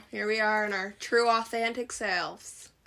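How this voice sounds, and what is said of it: Speaks with a put-on accent. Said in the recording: “that was me with an accent”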